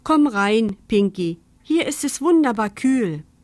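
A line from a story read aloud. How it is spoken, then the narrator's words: Mother calling. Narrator (German): Mama rief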